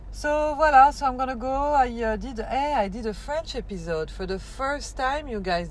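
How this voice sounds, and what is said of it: Accented English, French speaker. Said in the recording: “I have an accent and everything”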